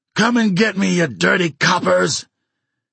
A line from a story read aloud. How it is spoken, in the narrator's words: Mad Dog, his face twisted with defiance, although his brow is greased with sweat, screams out